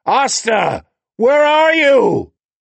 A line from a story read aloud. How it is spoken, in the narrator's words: Howard bellowed